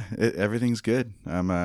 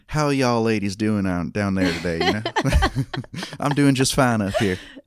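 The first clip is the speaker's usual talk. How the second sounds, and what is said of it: Put-on country twang. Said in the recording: “putting on the country twang ... That was really good. ... That was so good. Oh my gosh. That was amazing.”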